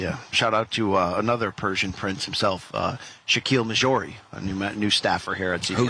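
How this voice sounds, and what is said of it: Usual voice. Nothing is said of it.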